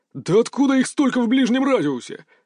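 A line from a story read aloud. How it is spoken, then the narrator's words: Panicked yell. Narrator (Russian): завопил лейтенант первого взвода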